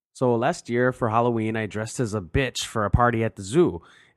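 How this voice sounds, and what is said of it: Put-on Minnesota accent. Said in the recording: “read in a Minnesota accent... I'm a little rusty”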